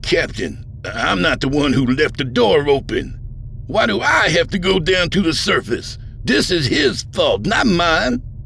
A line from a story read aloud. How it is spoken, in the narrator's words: Vardal turned to her with a look of sharp dismay and sputtered